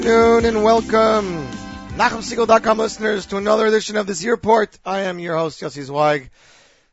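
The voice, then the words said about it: Hoarse, partly lost voice. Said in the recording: “As you can hear, my voice is still a little bit gone.”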